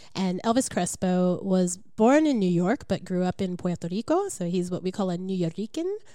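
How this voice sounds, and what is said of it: Congested, stuffy-sounding voice. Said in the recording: “I have a little bit of a cold, so I'm going to sound pretty funny.”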